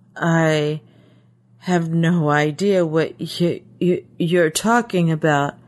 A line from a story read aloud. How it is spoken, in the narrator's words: he stammered in reply